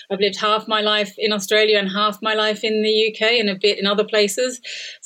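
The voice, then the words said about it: Australian accent. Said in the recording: “you can probably hear from my accent, I was born in Australia”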